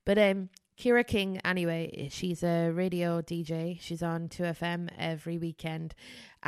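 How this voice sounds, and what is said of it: Mixed accent with a lisp. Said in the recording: “I got this weird mongrel accent and a big lisp ... my speech impediments”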